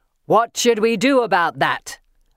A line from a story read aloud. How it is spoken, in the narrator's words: the centaur asks, rage snarling around his words